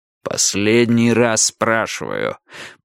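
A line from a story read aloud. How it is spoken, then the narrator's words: Growling. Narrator (Russian): прорычал Страйк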